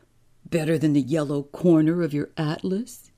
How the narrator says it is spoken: He laughed

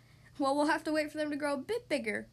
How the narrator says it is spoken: replied Grandpa, laughing

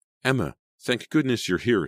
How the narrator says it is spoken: Sydney cried

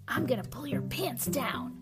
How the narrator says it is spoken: Wyatt whispers

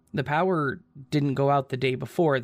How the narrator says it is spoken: they said

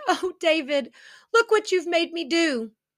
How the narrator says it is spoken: she cried

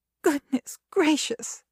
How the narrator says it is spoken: exclaimed the stout woman

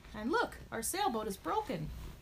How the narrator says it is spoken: exclaimed Stripes

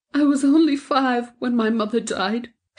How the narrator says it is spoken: she sobbed

